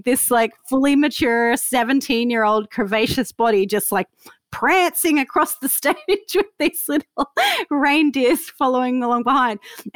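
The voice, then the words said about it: Australian accent with slight Canadian twinge. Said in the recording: “you're an Aussie and you've got, well, I hear it, but you've got a twinge of a Canadian accent in there”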